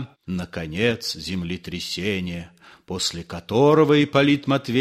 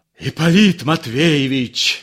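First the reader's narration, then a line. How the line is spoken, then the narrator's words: Shouting. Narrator (Russian): закричал он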